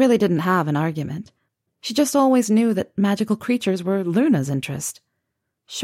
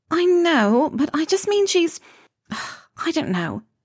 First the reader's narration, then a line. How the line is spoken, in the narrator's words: Pansy faltered